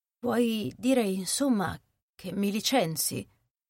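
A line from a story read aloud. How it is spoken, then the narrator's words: Low-voiced question. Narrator (Italian): domandò l'altra a voce bassa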